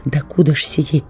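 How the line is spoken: Whispered question. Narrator (Russian): так же шепотом спросил Сережа

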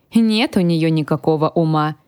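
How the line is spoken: Grumbling. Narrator (Russian): проворчал я

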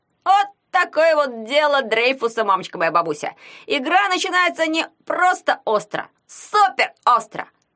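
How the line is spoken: Excited yell. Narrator (Russian): завопил Ягун

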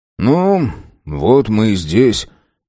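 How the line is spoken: Muttered. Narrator (Russian): пробормотал Зак

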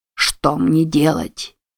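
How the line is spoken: Muttering while walking. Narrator (Russian): бормотал он, бредя по улице

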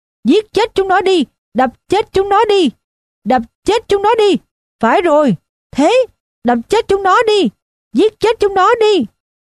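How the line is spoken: Frenzied screaming. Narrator (Vietnamese): nó gào lên

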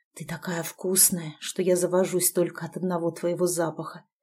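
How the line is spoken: Hoarse, aroused. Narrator (Russian): хрипло заявил он, сатанея от ее нежнейшего аромата

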